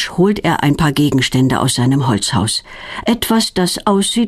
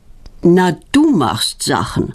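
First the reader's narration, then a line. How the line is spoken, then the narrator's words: Sighing. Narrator (German): seufzt Knut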